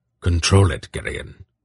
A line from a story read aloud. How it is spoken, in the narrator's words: Belgareth said sharply